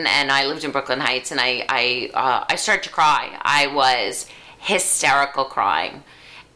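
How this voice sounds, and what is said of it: New York accent. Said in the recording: “if you can't tell by the accent, we live in New York”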